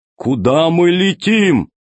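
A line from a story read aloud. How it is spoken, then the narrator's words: Shouting from below. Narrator (Russian): Зеленый закричал снизу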